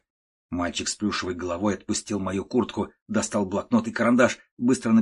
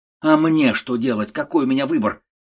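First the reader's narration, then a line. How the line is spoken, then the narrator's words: Desperate shout. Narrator (Russian): закричал я в отчаянии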